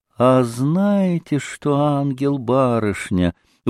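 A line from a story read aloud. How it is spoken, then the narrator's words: Sugary tender drawl. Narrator (Russian): вдруг протянула она самым уже нежным и слащавейшим голоском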